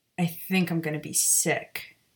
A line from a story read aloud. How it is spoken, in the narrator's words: Maya muttered, shocked by what she'd just witnessed